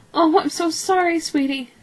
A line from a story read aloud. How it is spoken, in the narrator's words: she cried